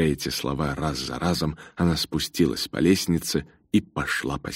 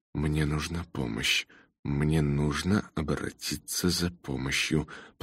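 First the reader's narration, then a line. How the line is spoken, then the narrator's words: Suppressed panic, through teeth. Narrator (Russian): Она сдержала нарастающую панику и сквозь зубы сказала себе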